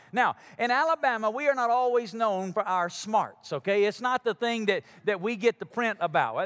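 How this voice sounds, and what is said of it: Southern Alabama accent. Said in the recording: “I'm from Alabama ... You can hear it in my accent.”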